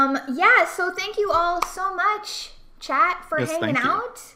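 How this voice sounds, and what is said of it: Usual voice. Nothing is said of it.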